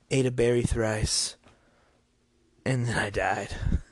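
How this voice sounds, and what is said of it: Exaggerated put-on accent, deliberately bad. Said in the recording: “this is my real accent. And it's probably really bad.”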